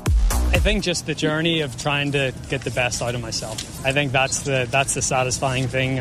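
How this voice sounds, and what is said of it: Irish accent. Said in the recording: “That's a nice accent there. ... Oh, that's the Irish accent.”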